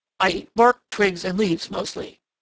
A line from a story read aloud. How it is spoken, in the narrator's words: grunted Prickly Porky ungraciously